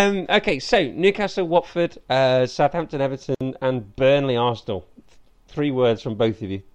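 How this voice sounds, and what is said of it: Usual voice. Nothing is said of it.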